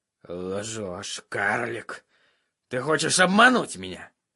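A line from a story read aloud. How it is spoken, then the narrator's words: Gloomy grumble. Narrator (Russian): мрачно буркнул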